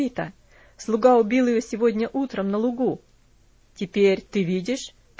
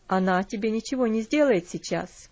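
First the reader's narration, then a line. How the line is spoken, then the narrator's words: Plain. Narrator (Russian): ответил он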